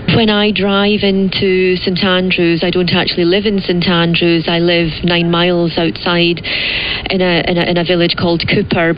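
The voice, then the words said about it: Fancy-sounding accent. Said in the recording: “What a great, what a great accent! ... It sounds so much fancier.”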